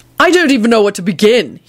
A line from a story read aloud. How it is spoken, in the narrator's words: he barked